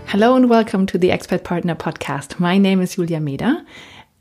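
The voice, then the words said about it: German accent in English. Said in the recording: “As you may have heard already from my accent, I'm German”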